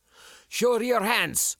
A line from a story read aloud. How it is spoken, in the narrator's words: the officer shouted